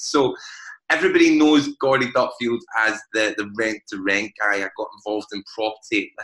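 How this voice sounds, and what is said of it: Glaswegian Scottish accent. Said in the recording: “As most people can tell by my accent, I am from Glasgow.”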